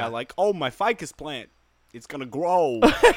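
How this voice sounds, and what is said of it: Christopher Walken impression. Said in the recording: “my Christopher Walken impersonation”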